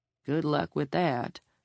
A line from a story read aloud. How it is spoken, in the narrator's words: the judge murmured